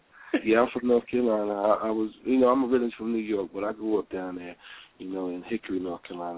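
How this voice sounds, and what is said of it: Mixed New York accent. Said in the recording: “You have the New York accent ... it's mixed up, so it comes in and out.”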